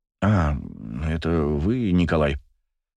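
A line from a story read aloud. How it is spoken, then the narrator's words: Absent-minded mutter. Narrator (Russian): Рассеянно пробормотал целитель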